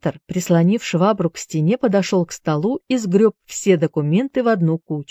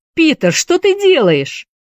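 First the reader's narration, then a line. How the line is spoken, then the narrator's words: Scream. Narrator (Russian): закричала Присцилла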